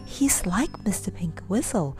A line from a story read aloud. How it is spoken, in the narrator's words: whispered one to the other